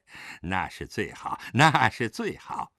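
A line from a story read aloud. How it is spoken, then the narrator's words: Laughing. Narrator (Chinese): 陈松涛笑道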